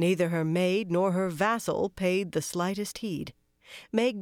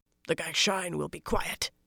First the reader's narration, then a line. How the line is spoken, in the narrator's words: Roland grunted